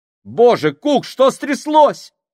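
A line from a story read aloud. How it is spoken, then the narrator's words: Desperate exclamation. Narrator (Russian): С отчаянием в голосе воскликнул Крайчик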